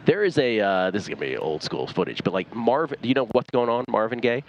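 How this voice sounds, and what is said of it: Polished radio announcer voice. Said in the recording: “you do have like a really nice, obviously a nice radio voice ... I don't sound like this at ... All, Stormy. This is just my radio voice. ... I don't sound like this in real life.”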